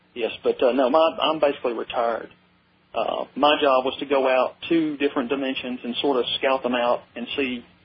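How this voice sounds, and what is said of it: Southern American accent. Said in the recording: “I can hear the Southern accent in you. No question about it.”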